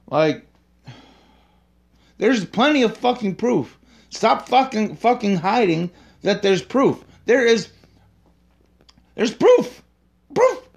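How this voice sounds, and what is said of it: Agitated, worked-up angry ranting. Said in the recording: “I get so worked up I can't fucking talk, and I sound like a fucking idiot”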